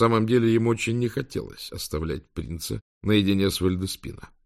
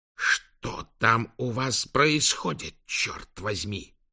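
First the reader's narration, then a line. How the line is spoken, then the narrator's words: Hissing into phone. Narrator (Russian): прошипел он в телефон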